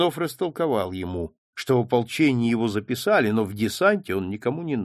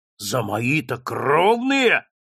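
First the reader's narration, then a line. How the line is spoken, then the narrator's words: Growling again. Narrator (Russian): снова стал рычать Растригин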